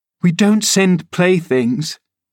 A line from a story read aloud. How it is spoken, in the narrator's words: cried Catherine, her pride overcoming her shame